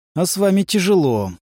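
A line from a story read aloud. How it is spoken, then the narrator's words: Sighing. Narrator (Russian): вздохнул Хоффман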